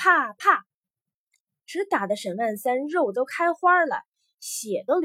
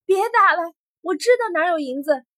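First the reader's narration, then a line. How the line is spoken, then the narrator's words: Shout. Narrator (Chinese): 沈万三喊了一句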